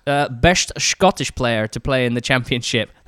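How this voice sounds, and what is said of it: Poor imitation of Scottish accent. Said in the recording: “Sean Connery coming out ... That was almost Dutch. ... I'm going to say in a normal voice.”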